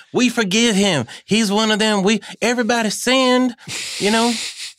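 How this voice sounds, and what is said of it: Put-on Southern accent. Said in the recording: “I'm doing a Southern accent.”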